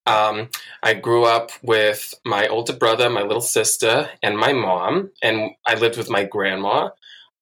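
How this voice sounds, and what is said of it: Thick New York accent. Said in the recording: “you have a very thick New York accent”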